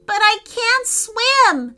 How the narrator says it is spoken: cried Declan

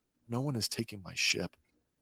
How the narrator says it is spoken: quietly says to herself

